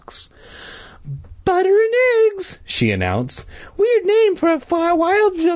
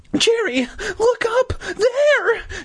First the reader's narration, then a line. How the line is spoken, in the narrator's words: she cried